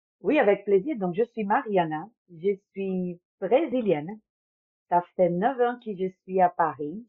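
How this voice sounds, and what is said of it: French with a foreign accent. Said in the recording (French): “ce délicieux accent”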